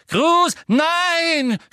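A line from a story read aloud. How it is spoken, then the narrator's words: Broken scream. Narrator (German): schrie Hermine mit gebrochener Stimme hinter Millicent Bulstrode hervor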